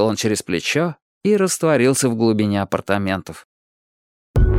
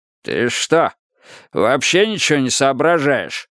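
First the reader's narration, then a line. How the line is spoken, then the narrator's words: Roared. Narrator (Russian): взревел Кроули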